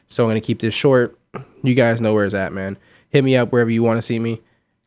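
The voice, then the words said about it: Sick, under-the-weather voice. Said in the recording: “I am a little bit under the weather right now. I don't feel great. You may be able to hear it in my voice.”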